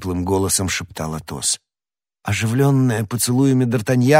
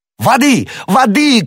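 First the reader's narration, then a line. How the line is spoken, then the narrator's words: Shouting. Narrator (Russian): кричал Д'Артаньян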